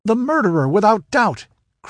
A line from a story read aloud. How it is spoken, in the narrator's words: cried Eris